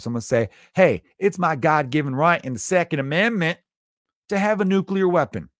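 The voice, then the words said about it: Put-on Southern US accent. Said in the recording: “Sorry, Southerners, you get the accent.”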